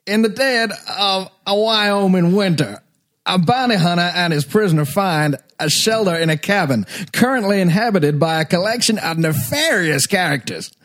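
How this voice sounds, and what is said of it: Goofy Southern Walton Goggins impression. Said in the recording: “Walton Goggins? ... Southern accent, yeah. Goofy Southern. ... I love the way he hit nefarious.”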